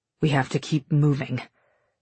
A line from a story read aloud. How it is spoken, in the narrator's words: Shade mutters